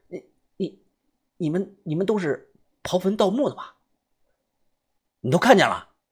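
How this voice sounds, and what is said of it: Quiet, hushed stammering voice. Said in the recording (Chinese): “小声的说”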